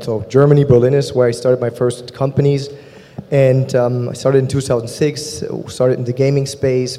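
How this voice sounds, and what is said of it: German accent. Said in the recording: “You'll soon be able to tell by my German accent where I'm from.”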